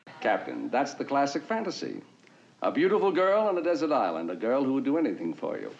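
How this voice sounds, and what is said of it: Elegant mid-Atlantic, British-sounding accent. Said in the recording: “a very elegant mid-Atlantic accent that makes him sound kind of British ... This is a total affectation”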